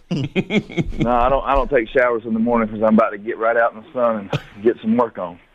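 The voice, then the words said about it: Out of breath, panting speech. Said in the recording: “I'm about out of breath.”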